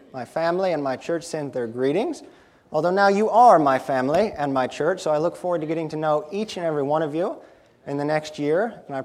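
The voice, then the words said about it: Slight South Carolina accent. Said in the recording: “if you hear a little bit of an accent, it's because I'm originally from South Carolina”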